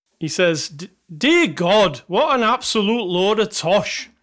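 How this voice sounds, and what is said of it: Weak put-on Scottish accent. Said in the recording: “I would do a Scottish accent for this one, but I can't do one... That's my Scottish accent... That's all I can do in Scottish.”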